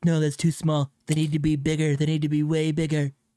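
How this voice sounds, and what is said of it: Imitates another person's voice. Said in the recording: “I wish my Trump impersonation was better ... That was actually pretty good. ... It was pretty good. ... Solid 7 out of 10.”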